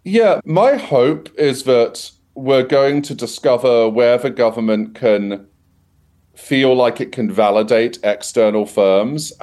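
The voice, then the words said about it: British accent. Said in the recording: “based on your accent, you know, the UK also has an AI Safety Institute”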